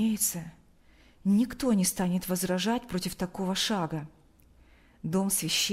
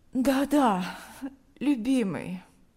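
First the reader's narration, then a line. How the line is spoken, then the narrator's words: Sleepy. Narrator (Russian): она сонно ответила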